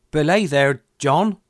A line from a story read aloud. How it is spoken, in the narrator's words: said Mary